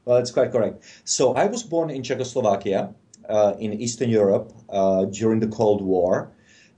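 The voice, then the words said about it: Foreign, non-American accent. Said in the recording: “I'm guessing from your accent that you're not born in the United States”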